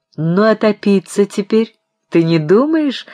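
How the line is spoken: Laughing. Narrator (Russian): смеялся Евграф Александрович

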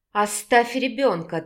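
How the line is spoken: Firm furious, through teeth. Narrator (Russian): твердо процедила Вика, приходя в бешенство от злости

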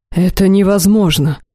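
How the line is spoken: Breathed out. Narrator (Russian): выдохнул девятый

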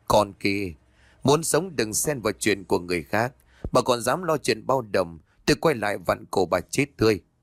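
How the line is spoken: Laughing, threatening. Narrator (Vietnamese): miệng cười lớn rồi buông ra lời hăm dọa

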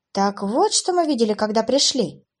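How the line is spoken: Exclamation. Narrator (Russian): воскликнула Клэр

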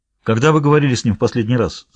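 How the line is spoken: Plain. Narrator (Russian): спросил Хоук Невилла

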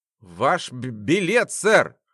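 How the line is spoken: Stuttering. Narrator (Russian): Макинтош начал заикаться

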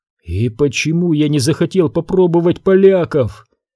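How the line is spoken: Glum utterance. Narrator (Russian): уныло выговорил Вебер

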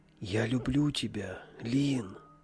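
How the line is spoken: Quiet call. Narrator (Russian): Тихо позвал я

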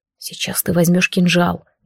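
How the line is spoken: Quick whisper. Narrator (Russian): быстро прошептал Азриэль

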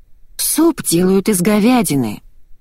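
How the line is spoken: Sighing. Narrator (Russian): вздохнула я

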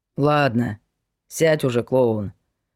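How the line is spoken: Grumbling colonel. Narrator (Russian): проворчал полковник

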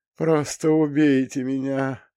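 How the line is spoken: Moaning boy. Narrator (Russian): простонал кто-то из пацанов

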